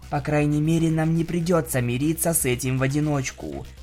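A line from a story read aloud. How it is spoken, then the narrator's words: Whispered. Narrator (Russian): прошептала она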